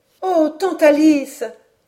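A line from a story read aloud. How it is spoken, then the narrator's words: Exclamation. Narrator (French): s'écria Hélène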